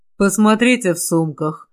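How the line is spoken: Muffled reply. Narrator (Russian): глухо отозвался Ланселот

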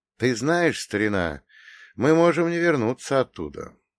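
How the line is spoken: Quiet question. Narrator (Russian): спросил я тихо

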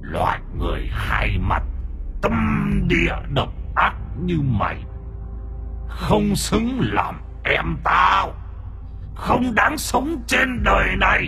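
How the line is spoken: Growling tiger's human speech. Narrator (Vietnamese): Âm thanh gầm gừ ở trong cổ họng con hổ, nó nói ra tiếng người

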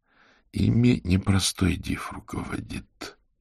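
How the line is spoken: Quiet. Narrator (Russian): тихо проговорил Аверин

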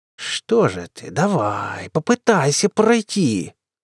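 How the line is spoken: Defiant hiss. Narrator (Russian): С вызовом зашипела она

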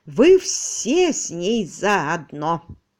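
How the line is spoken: Dull muttering. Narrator (Russian): глухо пробубнила

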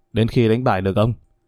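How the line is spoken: Cold reply. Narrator (Vietnamese): Tên mặt đen lạnh lùng trả lời

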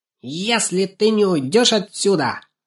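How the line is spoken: Shrill puppy yapping. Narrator (Russian): визгливо протявкал щенок

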